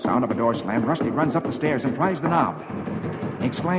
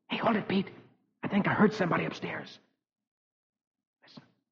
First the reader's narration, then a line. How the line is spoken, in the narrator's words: Suddenly, Rusty whispers